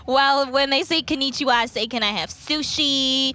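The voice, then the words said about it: Los Angeles accent. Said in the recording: “I'm just going to stick to my little LA accent.”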